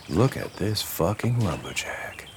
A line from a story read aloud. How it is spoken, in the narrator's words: Sparky whispered